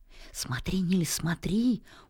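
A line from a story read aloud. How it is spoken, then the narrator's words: Quick whisper. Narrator (Russian): успел шепнуть Мартин мальчику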